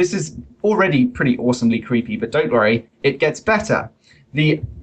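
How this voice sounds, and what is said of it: Usual voice. Nothing is said of it.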